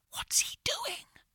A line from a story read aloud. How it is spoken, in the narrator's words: I whispered to Jake